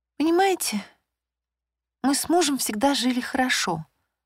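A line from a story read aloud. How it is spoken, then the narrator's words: Trembling voice. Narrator (Russian): начала она дрожащим голосом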